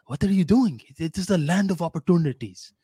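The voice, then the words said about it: Attempted Indian accent. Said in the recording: “I don't even know if that was an Indian accent”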